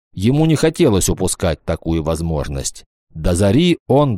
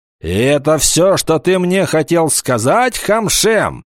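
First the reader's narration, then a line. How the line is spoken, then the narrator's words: Angry shouting. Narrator (Russian): сердито закричал он на Абиру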